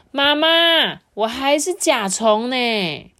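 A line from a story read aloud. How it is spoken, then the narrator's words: Loud. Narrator (Chinese): 卡夫卡大声的说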